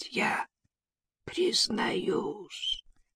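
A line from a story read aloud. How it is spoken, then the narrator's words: Hoarse wheeze. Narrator (Russian): просипел он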